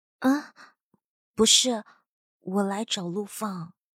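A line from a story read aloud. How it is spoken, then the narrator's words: Soft voice. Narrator (Chinese): 轻声说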